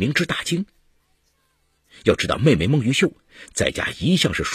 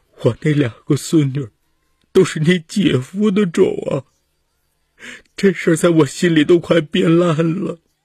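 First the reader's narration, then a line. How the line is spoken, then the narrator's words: Wailing sobs. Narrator (Chinese): 她嚎啕大哭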